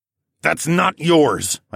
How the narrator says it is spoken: growled

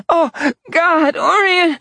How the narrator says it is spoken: She gasped

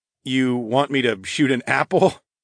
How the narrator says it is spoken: I laughed

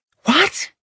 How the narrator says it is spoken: She gasped in shock

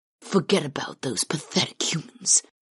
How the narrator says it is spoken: Karth insisted softly

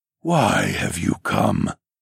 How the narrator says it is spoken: The tree's branches and leaves hissed as they rattled with suspicion

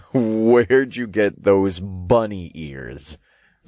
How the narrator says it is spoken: I chuckled

